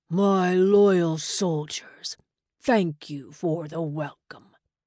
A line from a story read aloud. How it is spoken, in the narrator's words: In a voice that carried, he boomed